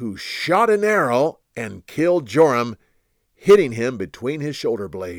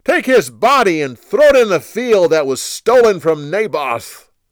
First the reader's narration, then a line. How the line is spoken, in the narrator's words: He then shouted to the others